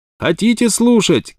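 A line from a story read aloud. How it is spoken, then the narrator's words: Shouting. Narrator (Russian): кричал Глендон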